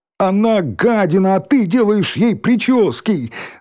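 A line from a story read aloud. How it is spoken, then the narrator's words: Shouting. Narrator (Russian): закричал Рыжий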